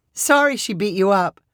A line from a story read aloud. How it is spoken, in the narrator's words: Mallory said with a laugh